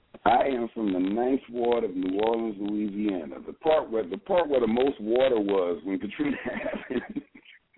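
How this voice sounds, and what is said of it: Regional American accent. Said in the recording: “when you say y'all and them, I noticed that there was an accent.”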